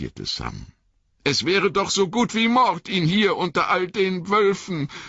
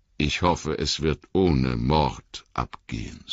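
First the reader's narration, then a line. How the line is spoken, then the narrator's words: Plain. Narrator (German): sagte Gandalf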